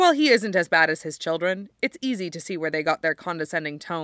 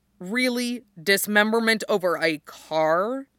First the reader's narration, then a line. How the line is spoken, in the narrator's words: Mikhail says